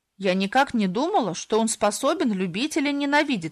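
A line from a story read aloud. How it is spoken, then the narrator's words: Plain. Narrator (Russian): сказала Далани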